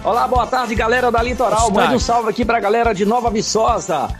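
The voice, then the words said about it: Pleasant regional Brazilian accent. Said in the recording (Portuguese): “o sotaque gostoso e mais da conta”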